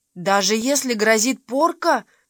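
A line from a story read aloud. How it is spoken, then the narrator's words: Pleading. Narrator (Russian): взмолилась Мэри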